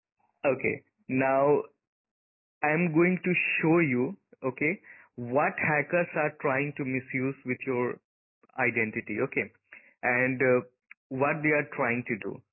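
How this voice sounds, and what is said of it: Heavy Asian-accented English. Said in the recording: “Your accent is hard. ... I'm the Asian guy, right?”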